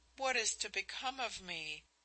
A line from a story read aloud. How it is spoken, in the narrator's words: she almost sobbed, in an anguish of fear